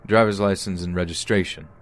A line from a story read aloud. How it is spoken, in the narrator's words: demands curtly